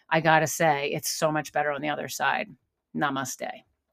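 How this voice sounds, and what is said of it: Choked-up, emotional voice. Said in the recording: “I'm a little emotional. Got a little choked up at the end of that”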